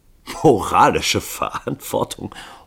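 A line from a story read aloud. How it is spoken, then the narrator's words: Bursting out laughing. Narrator (German): Hall brach in Lachen aus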